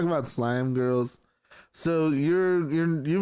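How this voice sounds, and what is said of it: Usual voice. Nothing is said of it.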